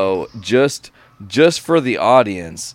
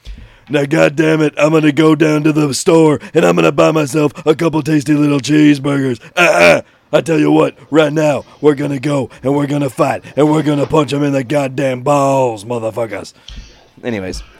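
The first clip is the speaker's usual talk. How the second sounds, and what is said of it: Imitates another person's voice. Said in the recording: “I do a Stone Cold impression.”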